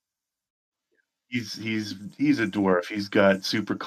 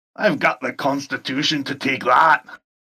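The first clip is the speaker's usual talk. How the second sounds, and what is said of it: Put-on character accent. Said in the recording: “Bravo! Nice accent.”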